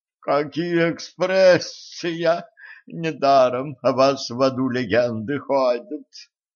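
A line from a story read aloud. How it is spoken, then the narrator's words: Moaning. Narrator (Russian): простонала секретарша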